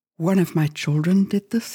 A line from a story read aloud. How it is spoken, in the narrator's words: he said